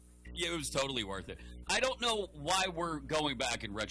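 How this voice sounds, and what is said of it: Usual voice. Nothing is said of it.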